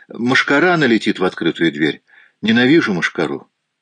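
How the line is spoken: Calm reply. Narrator (Russian): спокойно ответила

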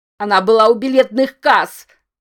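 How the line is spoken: Desperate shout. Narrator (Russian): выкрикнул Рамон, отчаянно выдираясь из упорно поглощающей его темноты

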